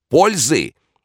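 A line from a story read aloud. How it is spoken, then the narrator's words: Frenzied shout. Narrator (Russian): закричал он исступленно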